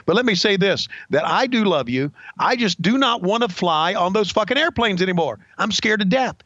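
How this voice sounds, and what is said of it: Impression of Jim Cornette. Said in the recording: “here's Jim Cornette ... Bruce Prichard's doing my voice”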